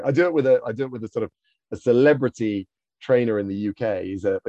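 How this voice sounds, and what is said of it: British accent. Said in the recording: “Americans love the British accent... we love the British accent”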